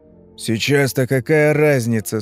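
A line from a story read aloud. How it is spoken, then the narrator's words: Through gritted teeth. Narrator (Russian): спросил Тух-тух сквозь зубы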